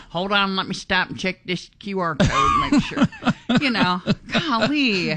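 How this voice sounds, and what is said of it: Imitates a police officer. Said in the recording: “That's a great imitation you just did.”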